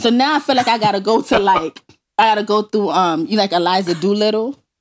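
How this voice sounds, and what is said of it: Thick New York accent. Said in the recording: “New York accent is thick as hell ... That New York accent is thick”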